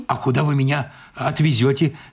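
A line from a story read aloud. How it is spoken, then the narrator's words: Trembling voice. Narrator (Russian): спросил я дрожащим голосом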